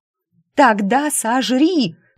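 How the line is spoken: Desperate shout. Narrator (Russian): крикнула от отчаяния

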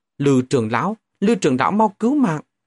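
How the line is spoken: Relieved loud cry. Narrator (Vietnamese): sắc mặt mừng rỡ, lớn tiếng hô to

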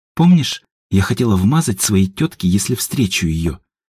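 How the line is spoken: Quiet whisper. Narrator (Russian): тихо шепнула Едвига Степану

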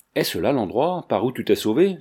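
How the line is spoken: Plain. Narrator (French): lui dit Manfred

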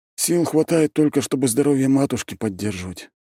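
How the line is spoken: Sighing. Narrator (Russian): добавил он, вздохнув

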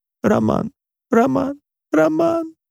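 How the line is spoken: Mother sobbing. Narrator (Russian): повторяла мама, рыдая

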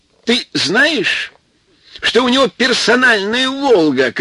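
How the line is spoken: Shouting. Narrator (Russian): кричал Рашпиль

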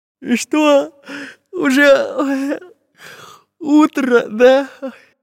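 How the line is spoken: Sleepy question. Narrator (Russian): сонно спросил Чижик

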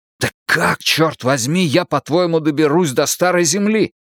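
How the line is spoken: Hissing. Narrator (Russian): прошипел

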